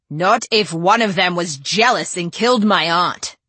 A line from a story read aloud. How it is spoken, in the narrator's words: growled Adrian